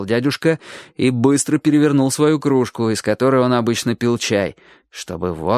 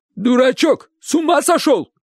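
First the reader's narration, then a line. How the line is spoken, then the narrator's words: Shout. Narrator (Russian): крикнул дядя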